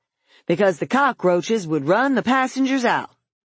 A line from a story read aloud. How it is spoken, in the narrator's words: he shouted into the Negro's chest